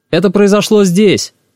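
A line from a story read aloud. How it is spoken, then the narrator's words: Shouting. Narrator (Russian): крикнул Олег Львович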